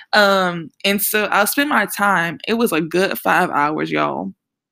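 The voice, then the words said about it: New Orleans accent. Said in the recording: “If you can hear an accent and you're wondering where I'm from, I'm from New Orleans.”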